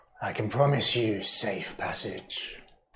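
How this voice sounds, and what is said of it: Character's accent. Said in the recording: “I've still got Ivan's accent.”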